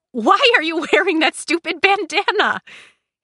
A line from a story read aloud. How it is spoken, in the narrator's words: He laughed